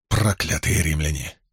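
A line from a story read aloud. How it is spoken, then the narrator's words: Angry mutter. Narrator (Russian): сердито пробормотал Гетас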